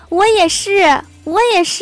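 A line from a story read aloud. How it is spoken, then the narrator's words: Happy shouting. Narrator (Chinese): 我这个朋友……心里可高兴了，就跟着喊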